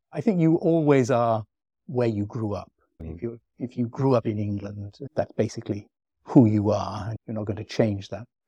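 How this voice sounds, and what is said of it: English accent. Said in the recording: “nobody ever takes me for a Venetian the moment I open my mouth. I have an English accent.”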